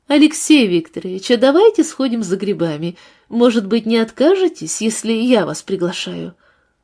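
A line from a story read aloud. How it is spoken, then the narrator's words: Laughing suggestion. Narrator (Russian): Лиза рассмеялась и предложила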